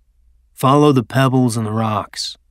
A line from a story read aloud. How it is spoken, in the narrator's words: Shakus said quietly